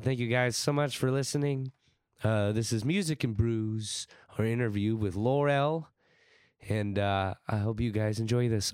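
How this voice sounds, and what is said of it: Hoarse, fading sick voice. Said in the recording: “I'm losing my voice more and more as I go ... I am sick for this intro. I am also sick in this episode”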